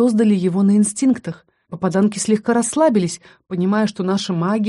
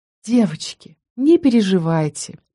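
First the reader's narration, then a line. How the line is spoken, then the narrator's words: Soft, slightly patronizing. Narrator (Russian): произнесла Елена мягко и почти покровительственно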